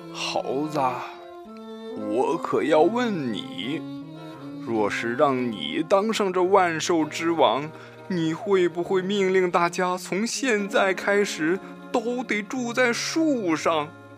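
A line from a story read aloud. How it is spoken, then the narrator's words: Slow, recovering breath. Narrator (Chinese): 狮子慢慢地缓过劲儿来说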